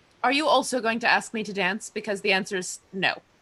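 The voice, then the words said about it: Refined Cambridge English accent. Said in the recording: “your accent, Cambridge? ... Here and there, but excellent, yes.”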